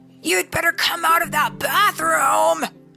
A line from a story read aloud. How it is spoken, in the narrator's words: shouted Brother